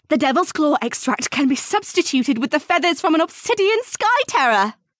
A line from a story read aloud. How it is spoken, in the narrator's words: Serafina blurted out excitedly